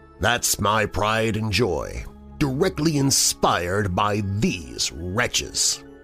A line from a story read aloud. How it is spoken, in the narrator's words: scoffed